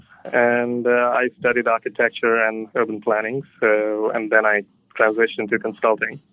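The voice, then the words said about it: Indian English accent. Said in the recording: “I was born in India, so you can probably hear it in my accent”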